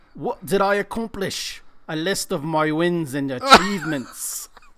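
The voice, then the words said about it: Bad put-on Jamaican accent. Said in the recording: “That was the worst Jamaican accent I've ever heard.”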